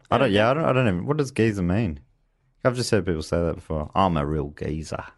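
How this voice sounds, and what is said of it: Australian accent. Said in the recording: “Google has not figured out the Australian accent.”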